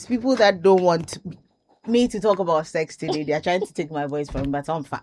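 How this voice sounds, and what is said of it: Strained, fading voice. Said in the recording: “I was actually losing my voice.”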